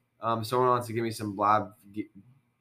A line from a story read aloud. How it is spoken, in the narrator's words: I stuttered